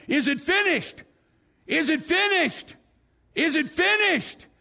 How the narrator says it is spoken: a million people shouting

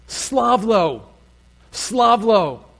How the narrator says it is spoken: The crowd is shouting at a Roman official

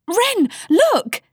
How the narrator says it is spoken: squealed Rose

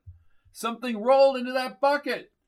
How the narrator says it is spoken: he called out

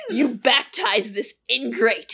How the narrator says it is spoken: sneered Clifton behind her

